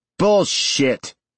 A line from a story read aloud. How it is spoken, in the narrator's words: Singer shouted